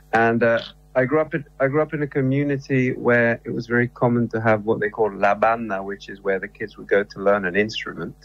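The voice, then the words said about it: English-influenced accent. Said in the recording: “My mother's English, though, hence the accent.”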